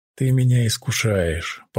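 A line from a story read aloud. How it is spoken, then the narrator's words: Blissful purr. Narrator (Russian): промурлыкала я, млея от нежных касаний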